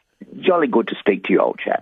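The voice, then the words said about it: Put-on British accent. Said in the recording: “lovely accent that you've adopted in the space of 24 hours”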